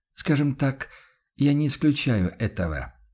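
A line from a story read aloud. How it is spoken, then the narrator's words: Confirming. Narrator (Russian): подтвердил охотник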